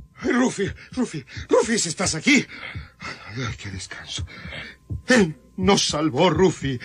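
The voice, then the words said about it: Shouting, agitated voice. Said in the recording (Spanish): “no grites más”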